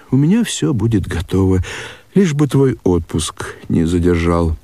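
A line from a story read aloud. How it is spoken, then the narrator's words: Sad, upset mother. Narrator (Russian): Мать, очень огорченная, печально отвечала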